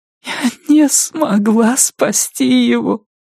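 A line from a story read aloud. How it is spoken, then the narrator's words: Sobbing. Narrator (Russian): сказала она, все еще всхлипывая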